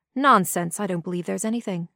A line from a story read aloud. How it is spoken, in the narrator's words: said the doctor